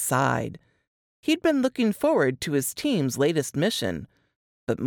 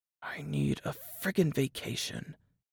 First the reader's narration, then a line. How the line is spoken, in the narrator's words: whispered